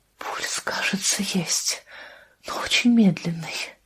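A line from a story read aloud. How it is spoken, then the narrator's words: Whisper. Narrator (Russian): прошептала она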